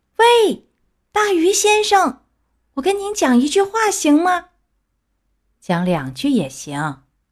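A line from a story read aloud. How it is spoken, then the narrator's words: Loud shout. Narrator (Chinese): 木偶不知道这条鱼叫什么名字，他高声大叫，让他听见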